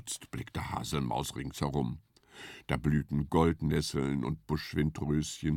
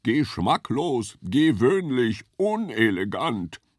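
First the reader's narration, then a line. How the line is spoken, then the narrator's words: Thundering. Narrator (German): donnerte Hirsch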